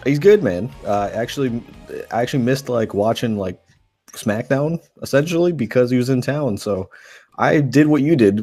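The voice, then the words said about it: Hoarse voice. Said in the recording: “if I sound a little bit hoarse, it's because I just drove through Tampa singing”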